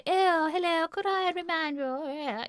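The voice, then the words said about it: Ridiculously posh English accent. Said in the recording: “I've put on this ridiculously posh accent ... I started sounding like Joyce Grenfell or something”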